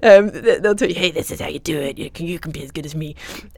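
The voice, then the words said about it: Put-on American accent, smoker's rasp. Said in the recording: “normally American accent ... American accent and a heavy smoker”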